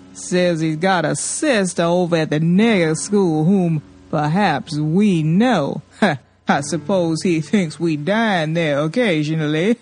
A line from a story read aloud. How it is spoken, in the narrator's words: the old man chuckled